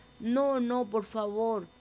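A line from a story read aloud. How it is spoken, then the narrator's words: Little mouse whimpering. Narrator (Spanish): gimió el ratoncito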